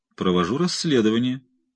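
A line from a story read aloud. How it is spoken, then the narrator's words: Calm reply. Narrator (Russian): спокойно ответил Брауэр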